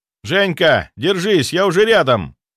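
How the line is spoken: Shouted. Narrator (Russian): выкрикнул я

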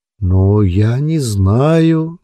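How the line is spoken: Uncertain drawl. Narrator (Russian): неуверенно протянул Ули

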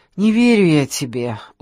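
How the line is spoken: Weary speech. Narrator (Russian): устало проговорила Саша

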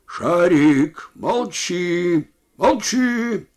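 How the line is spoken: Shout at dog. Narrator (Russian): крикнул другой на собаку

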